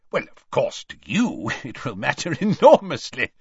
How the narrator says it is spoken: said Scrymgeour with a laugh

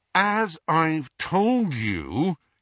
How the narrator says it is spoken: he said through gritted teeth

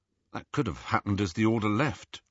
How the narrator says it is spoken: Ron murmured back

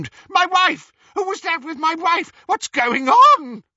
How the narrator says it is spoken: the real Reg Cattermole screamed

